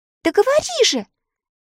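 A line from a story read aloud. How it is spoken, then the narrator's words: Impatient exclamation. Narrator (Russian): нетерпеливо воскликнула Элли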